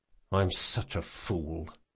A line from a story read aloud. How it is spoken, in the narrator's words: he muttered